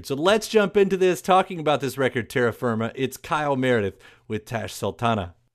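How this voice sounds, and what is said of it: Polished radio announcer voice. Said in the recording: “What a good radio voice you've got. That is the perfect podcast voice. ... You've got that type of radio voice that you would hear on Grand Theft Auto.”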